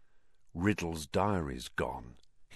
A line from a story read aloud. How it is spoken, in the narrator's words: he said in an undertone